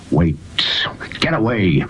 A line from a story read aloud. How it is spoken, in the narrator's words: the man whispered